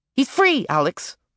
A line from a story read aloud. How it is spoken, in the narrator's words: Sam snapped